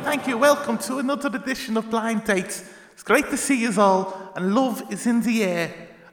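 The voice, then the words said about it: Put-on Liverpool accent. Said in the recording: “Cilla Black. Who is from Liverpool ... now you can do the accent you've been doing for all the other comedians”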